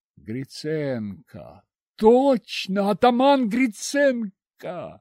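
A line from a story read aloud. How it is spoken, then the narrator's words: Exclaiming. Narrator (Russian): воскликнул Соловейчик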